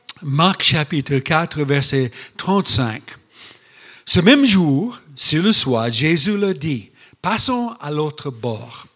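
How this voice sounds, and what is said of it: Mixed American-Luxembourgish accent in French. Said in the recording (French): “mon accent un peu mélange américain, luxembourgeois ... j'ai fabriqué mon propre accent, hein, le seul du monde”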